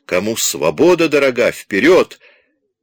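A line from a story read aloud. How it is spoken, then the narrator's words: Young man shouting. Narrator (Russian): какой-то молоденький закричал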